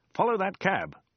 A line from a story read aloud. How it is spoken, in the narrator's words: exclaimed